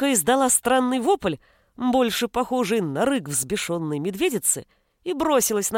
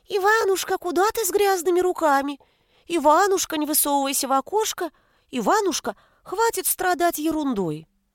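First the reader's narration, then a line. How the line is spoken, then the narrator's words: Squeaky mocking mimicry. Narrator (Russian): братец писклявым голоском передразнил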